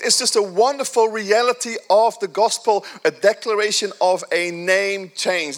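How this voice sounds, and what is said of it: Speaker with a noticeable accent. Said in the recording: “I still have an accent, don't I? ... my, my accent is still there”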